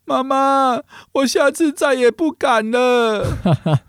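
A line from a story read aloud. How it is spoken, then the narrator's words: Crying pleading child. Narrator (Chinese): 胖虎一边哭，一边跟妈妈求饶讲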